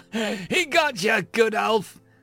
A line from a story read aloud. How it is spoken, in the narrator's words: Balder laughed boisterously